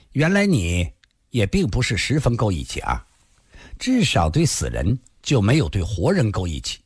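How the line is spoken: Cold pouting. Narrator (Chinese): 孙小红撅起了嘴儿，冷冷地说道

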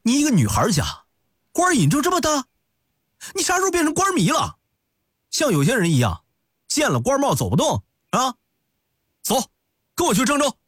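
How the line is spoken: Angry. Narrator (Chinese): 端阳一脸怒气地

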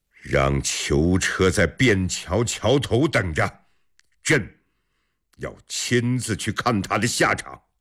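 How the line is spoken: Loud. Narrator (Chinese): 李世民这个消息让他暂时忘记了刚才的烦恼，大声说

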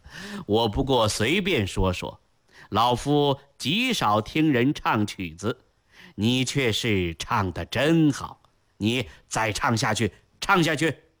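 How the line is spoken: Forced casual laugh. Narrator (Chinese): 高拱 便故作轻松的一笑说道

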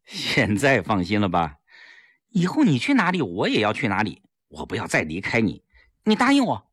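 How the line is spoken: Smiling. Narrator (Chinese): 齐长鹏笑了笑

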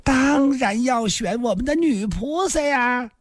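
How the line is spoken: Grinning. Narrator (Chinese): 游龙生笑嘻嘻说道

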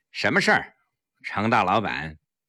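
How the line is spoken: Cold. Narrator (Chinese): 黄翠微冷冷地说

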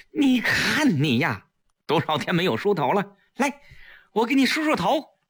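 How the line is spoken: Sad but loud. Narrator (Chinese): 季嫣然难过的……大声说

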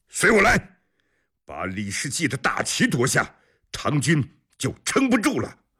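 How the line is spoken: Bloodied warrior shouting. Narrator (Chinese): 浑身是血的阿史纳斯摩 他大喊着

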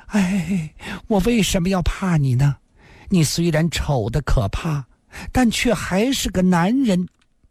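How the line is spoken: Trembling voice. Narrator (Chinese): 林仙儿颤声地说道

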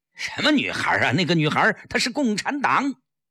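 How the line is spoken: Roaring. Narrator (Chinese): 江世飞吼道

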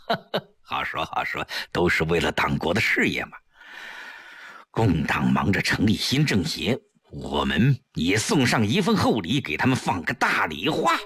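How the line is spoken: With a laugh. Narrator (Chinese): 程寒三一笑

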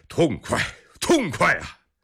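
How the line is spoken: Excited shouting. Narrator (Chinese): 格伦大部一脸兴奋之色，大喊两声

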